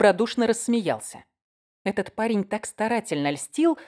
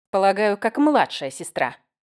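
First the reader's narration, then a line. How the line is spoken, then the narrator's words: Angry, sipping through straw. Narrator (Russian): сердито проговорила я, посасывая соломинку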